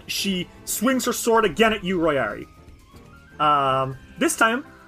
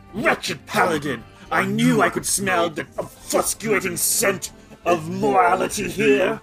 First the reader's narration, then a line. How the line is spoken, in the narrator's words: snarls at that, though, and says